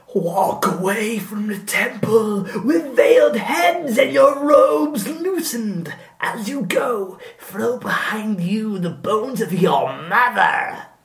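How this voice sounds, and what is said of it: Eerie oracle voice, like Us woman. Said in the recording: “say it in a weird voice? ... you do this as the oracle ... You sound like the woman from Us.”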